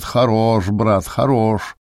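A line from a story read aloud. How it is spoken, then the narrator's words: Sarcastic chuckle. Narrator (Russian): Моргач весь красный, как рак, и, широко раздув ноздри, язвительно посмеивался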